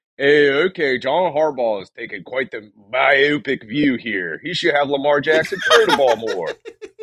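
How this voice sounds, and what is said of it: Exaggerated Baltimore accent. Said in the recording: “our Baltimore accents ... the Baltimore accent is funny with that”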